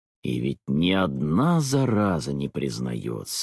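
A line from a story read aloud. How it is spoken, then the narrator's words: Soft good-natured grumbling. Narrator (Russian): ворчал он как-то мягко и добродушно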